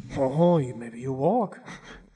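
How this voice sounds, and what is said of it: Put-on French accent. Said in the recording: “That was a perfect French accent ... That's the only way I can sort of do a French accent”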